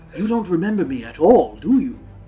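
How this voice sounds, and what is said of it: Old Geppetto-like character voice. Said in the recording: “Why did his voice change? ... He sounded like Geppetto from Pinocchio.”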